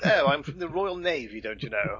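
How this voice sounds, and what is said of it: Posh British accent. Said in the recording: “this really posh sort of”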